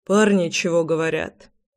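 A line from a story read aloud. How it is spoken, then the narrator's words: Sighing. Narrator (Russian): вздохнул я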